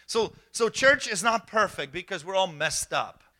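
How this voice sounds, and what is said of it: Non-American accent in English. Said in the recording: “I got an accent. ... putting me in to pastor an American church and I have an accent”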